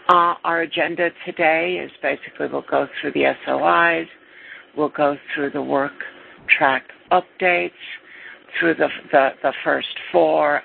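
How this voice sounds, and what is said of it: Sleepy-sounding voice. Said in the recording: “my voice sounds sleepy ... I apologize if my voice sounds sleepy”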